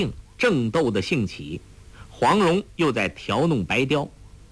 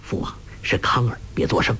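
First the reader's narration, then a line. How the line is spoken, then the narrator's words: Soft whisper in ear. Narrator (Chinese): 杨康在完颜洪烈耳边轻声说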